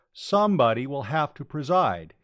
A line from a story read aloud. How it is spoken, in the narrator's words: said, loudly enough to cut through the babble